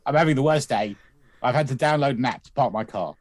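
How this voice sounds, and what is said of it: Imitates another person's voice. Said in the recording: “Don't do my voice if you can't do my voice.”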